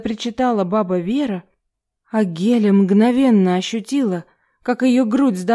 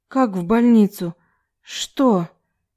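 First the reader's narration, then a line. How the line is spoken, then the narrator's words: Frightened breathless gasp. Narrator (Russian): Скорее выдохнула, чем сказала Геля, побелевшими от страха губами, так как внезапно поняла, что ей тяжело не то что говорить, но и дышать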